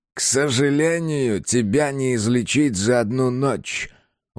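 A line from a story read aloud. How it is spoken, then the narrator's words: Through clenched teeth. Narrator (Russian): процедил Ворд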